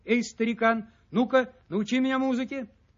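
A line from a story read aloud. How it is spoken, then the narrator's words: Loud shout in ear. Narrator (Russian): изо всех сил крикнул ему прямо в ухо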